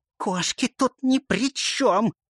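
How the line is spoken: Vicious hiss. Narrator (Russian): злобно прошипела крыса

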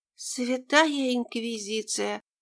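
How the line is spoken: Whisper. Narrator (Russian): прошептала Степанида

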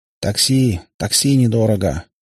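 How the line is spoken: Insistent muttering. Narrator (Russian): бормотали назойливые бомбилы

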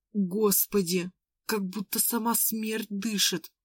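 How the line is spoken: Whisper. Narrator (Russian): прошептала она

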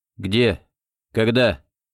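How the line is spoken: Calm question, eerie young man. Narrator (Russian): спокойно спросил жутковатый парень, которого называли странным именем Пахом

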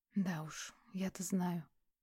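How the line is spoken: Quiet. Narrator (Russian): тихо произнесла Ольга

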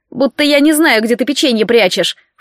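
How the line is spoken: Snorting. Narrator (Russian): фыркнул он

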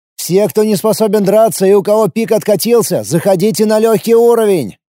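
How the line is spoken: Shout. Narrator (Russian): еще раз крикнул я

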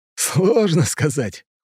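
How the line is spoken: With a hmph. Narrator (Russian): хмыкнул Макс

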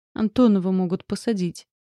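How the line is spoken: Glum. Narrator (Russian): уныло сказала Полина

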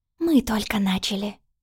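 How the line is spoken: Whisper. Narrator (Russian): шепнула Оля

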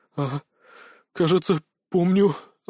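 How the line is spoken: Breathed out. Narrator (Russian): выдохнул Аликорн

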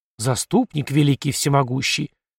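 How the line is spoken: Hurried whisper, praying priest. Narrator (Russian): торопливо зашептал отец Гнасий

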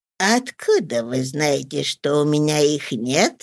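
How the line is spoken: Old man giggling. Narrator (Russian): Хихикнул старикашка

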